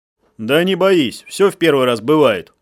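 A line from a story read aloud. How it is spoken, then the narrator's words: Chuckling. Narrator (Russian): хохотнул каперанг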